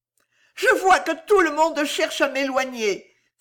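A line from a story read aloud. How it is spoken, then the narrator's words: Sad woman sobbing. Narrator (French): s'écria la triste Henriette en sanglotant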